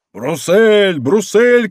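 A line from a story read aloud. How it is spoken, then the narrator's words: Crowd shouting. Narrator (Russian): кричала толпа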